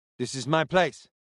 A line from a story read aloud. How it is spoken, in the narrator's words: he said again